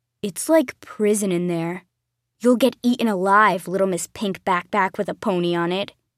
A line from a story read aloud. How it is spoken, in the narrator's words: growled